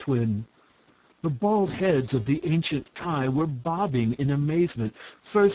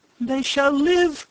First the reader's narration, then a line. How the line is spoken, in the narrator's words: cried the other